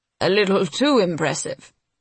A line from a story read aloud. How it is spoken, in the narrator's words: grumbles, though the twinkle in his eye belies his irritation